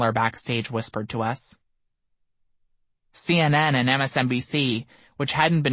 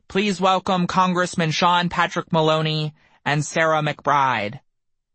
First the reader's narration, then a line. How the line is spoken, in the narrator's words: The announcer's voice boomed